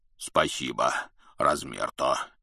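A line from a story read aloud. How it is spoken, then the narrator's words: Deep bass. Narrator (Russian): пробасил Хагрид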